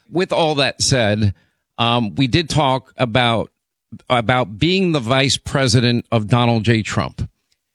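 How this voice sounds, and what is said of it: Hoarse, strained voice. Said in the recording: “I was fighting through my laryngitis, but it's slowly getting better”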